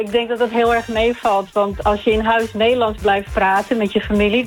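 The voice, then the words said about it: Dutch, Noord-Holland accent, slight English tinge. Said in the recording (Dutch): “een Engels accentje... ik hoor hem wel, hoor... kom jij een beetje uit Noord-Holland, Zaanstreek?... Dat je dat nog hoort door het Engels accent heen... en dan ook nog Noord-Holland Purmerend”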